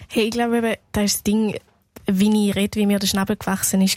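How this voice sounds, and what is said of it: Swiss German Thurgau dialect. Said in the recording (German): “den Thurgauer Dialekt, wo sie ja auch redet”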